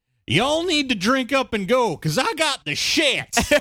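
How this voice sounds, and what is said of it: Put-on American southern accent. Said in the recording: “American with... You guessed it, a southern accent.”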